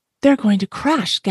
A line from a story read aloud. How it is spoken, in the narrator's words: gasped Stella Luna